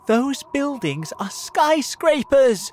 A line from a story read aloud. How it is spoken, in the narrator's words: shouted James excitedly